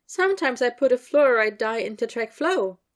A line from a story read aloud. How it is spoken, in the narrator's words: Penelope said brightly